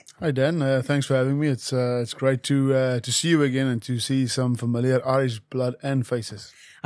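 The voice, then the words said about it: Afrikaans-sounding accent, faint Irish trace. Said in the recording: “He is the most Afrikaans-sounding Irishman you will ever meet ... a flicker of an Irish accent. I've got to be honest, it's fairly muted.”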